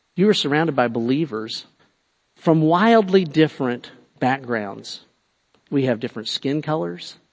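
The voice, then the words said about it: Southern rural American accent. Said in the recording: “I have a southern accent. I say it's a hick accent, which is below southern quite a bit”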